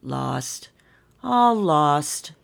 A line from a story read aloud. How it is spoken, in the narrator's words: sighed the snowman